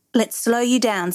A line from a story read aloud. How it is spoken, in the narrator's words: says Morgan